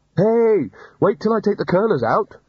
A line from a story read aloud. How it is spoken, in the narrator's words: Rincewind shouted after it